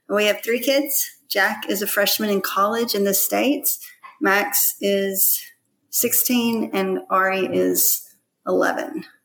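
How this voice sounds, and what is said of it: Slight Southern American accent. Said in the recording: “you definitely have a little bit of a Southern accent there”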